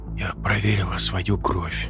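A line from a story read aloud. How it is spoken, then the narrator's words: Quiet. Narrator (Russian): сказала она тихо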